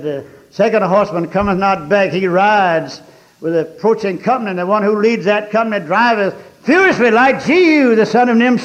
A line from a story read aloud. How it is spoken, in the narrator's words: The watchman on the tower called out to Joram, said